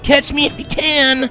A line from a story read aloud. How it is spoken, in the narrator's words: Rainbow taunted